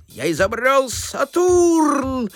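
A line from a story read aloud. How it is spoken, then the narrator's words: Shouting while struggling. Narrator (Russian): крикнул он, отбиваясь изо всех сил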